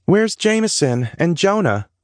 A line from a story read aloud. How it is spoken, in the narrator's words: Scarlett asked